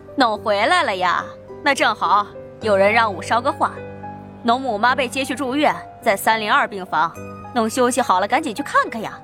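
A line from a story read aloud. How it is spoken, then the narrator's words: Laughing neighbor woman. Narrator (Chinese): 邻居一个婆娘，顿时笑了起来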